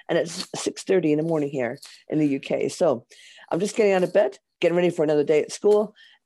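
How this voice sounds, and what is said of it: Hoarse, worn-out voice. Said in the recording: “I'm a little bit hoarse. ... I wore my voice out singing 12 Days of Christmas. So I'm a little bit hoarse”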